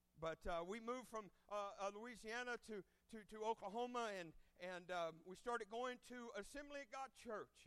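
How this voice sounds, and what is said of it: Okie Cajun mixed accent. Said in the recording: “accent comes from, it's a Okie Cajun, some sort of mix of accent”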